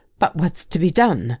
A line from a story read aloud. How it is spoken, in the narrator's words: demanded Ogilvy, playing nervously